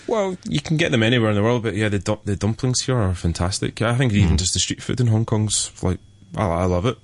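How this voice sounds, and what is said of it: Scottish accent. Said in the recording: “pardon my Scottish brogue”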